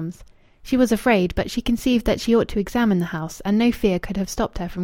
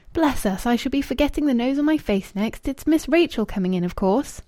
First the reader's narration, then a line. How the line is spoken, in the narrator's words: she gave a short laugh, and said in her ordinary tone